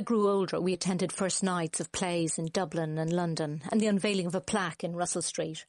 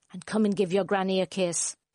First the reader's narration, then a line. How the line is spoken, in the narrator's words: grandmother would growl from under the covers